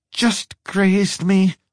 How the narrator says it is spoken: she said through clenched teeth

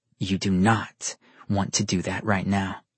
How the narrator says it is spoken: he warned her in a low growl

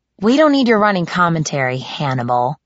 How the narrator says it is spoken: I snapped

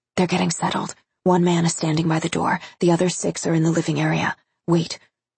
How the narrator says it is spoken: Letty whispered

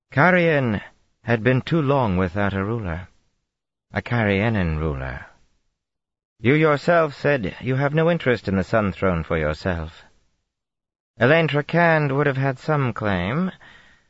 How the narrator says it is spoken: Colivert replied smoothly

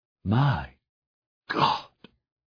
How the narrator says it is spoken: Isherwood whispered

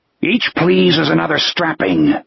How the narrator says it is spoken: the soldier growled

